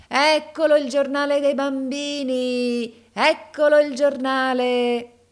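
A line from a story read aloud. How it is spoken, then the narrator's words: Shouting. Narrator (Italian): gridava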